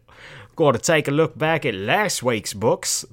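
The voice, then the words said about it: Bad put-on Australian accent. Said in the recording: “I suddenly went into an Australian accent... That's awful. That is an awful accent... terrible accents”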